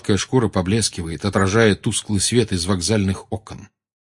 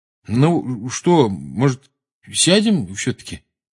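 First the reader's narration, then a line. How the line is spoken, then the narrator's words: Uncertain suggestion. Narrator (Russian): неуверенно предложил Рон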